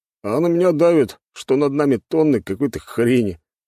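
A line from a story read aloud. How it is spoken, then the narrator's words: Wry scoffing grunt. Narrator (Russian): хмыкнул другой боец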